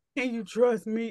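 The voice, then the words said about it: Deep seductive male voice. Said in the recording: “In a deep voice.”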